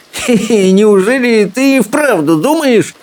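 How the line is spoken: Giggling. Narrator (Russian): хихикнул сопляк

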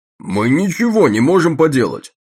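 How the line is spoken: Shouted out. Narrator (Russian): выкрикнул Джеймс

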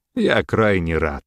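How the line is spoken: Count speaking after laughing. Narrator (Russian): отхохотав, сказал граф

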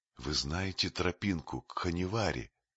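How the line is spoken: Whispered question. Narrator (Russian): шепотом спросил Маугли

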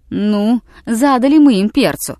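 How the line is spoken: Laughing. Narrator (Russian): засмеялся Хэтчину Билл

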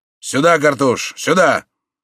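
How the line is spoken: Commanding shout. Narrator (Russian): повелительным тоном крикнул

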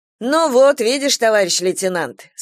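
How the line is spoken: Deliberately loud voice. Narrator (Russian): сказала Галя нарочито громким голосом

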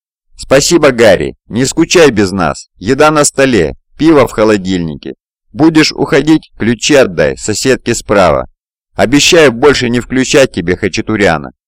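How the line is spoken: Laughing. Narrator (Russian): смеясь

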